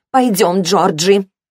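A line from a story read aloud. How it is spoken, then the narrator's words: Growled. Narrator (Russian): Сара практически прорычала эти слова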